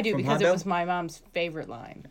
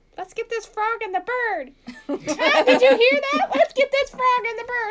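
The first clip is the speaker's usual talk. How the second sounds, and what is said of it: Mom-style accent. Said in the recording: “In a mom accent.”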